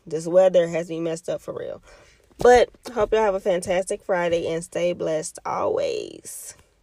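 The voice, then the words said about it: Raspy, slightly hoarse voice. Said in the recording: “I don't know if y'all can hear it in my throat, but see, I'm already getting raspy.”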